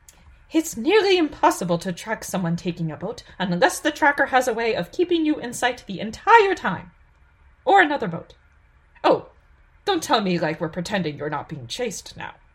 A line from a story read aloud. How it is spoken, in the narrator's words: MC exclaimed